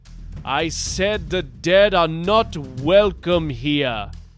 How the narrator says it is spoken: boomed Alawi

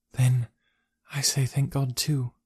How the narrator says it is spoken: she whispered

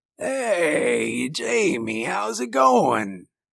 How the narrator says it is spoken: he rasped

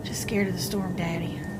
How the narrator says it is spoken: I whispered

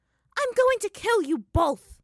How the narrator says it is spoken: Azula shouted with a clenched fist

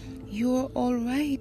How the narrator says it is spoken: she said happily

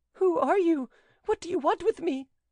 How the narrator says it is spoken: cried Mademoiselle de Guerchy, struggling to free herself

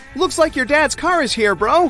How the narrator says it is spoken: his friends yell

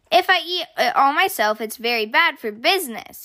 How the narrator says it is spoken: he exclaimed

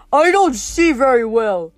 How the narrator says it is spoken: he growled

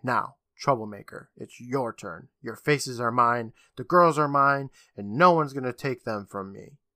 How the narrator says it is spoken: Visage calmly saying

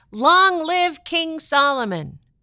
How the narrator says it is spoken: the people shouted

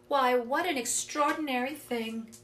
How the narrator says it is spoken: she exclaimed

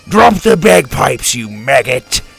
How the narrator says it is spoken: Drake roared

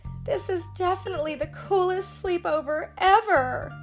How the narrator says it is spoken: Leah sighed happily

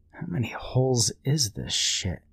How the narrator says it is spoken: Brian asked himself quietly

